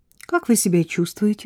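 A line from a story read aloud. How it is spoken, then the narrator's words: Plain. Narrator (Russian): спросила Жозе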